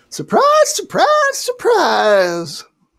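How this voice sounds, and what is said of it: Gomer Pyle impression. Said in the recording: “a soundbite from Gomer Pyle saying, surprise, surprise, surprise ... do an impression”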